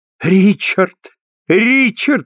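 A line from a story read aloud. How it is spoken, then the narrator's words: Exclaimed. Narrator (Russian): воскликнул Тоби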